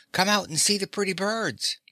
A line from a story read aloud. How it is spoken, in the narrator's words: the boy called out